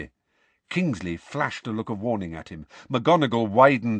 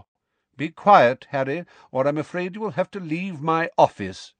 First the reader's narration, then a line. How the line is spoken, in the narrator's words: said Dumbledore calmly